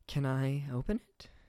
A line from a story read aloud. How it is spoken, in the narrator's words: She asked softly